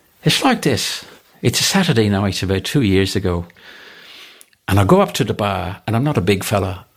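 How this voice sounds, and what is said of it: Poorly done put-on accent. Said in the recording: “I am mashing the accent, but I'll have a crack at it”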